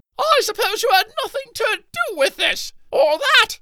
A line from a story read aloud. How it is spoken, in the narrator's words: Archibaldina shouted